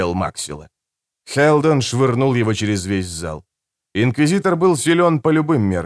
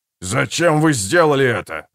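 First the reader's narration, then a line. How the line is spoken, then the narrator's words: Shouting. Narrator (Russian): закричал Фишек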